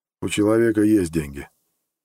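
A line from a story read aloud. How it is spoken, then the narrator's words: Very calm. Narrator (Russian): очень спокойно произнес я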